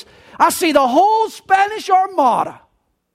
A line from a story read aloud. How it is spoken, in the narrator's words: the lookout shouted with a loud voice